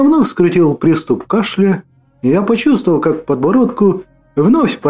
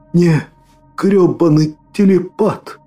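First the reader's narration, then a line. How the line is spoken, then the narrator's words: Choked out, gurgling blood. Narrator (Russian): С булькавой кровью сумел выдавить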